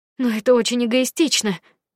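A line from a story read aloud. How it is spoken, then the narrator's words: Exclaimed. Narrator (Russian): воскликнула я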